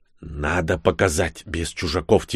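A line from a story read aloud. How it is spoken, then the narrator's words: Quiet whisper. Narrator (Russian): тихо прошептал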